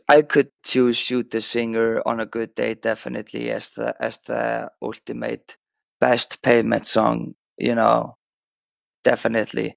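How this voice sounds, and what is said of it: Raspy voice. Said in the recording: “I have a little bit of a cold, so my voice is raspy.”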